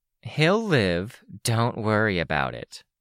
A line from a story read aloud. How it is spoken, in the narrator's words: Tattletale said, her voice laced with condescension